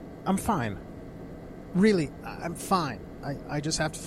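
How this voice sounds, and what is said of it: Usual voice. Nothing is said of it.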